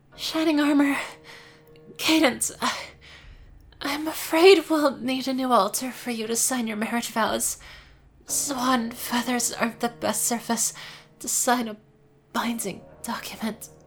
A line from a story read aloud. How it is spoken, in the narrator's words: wheezed the changeling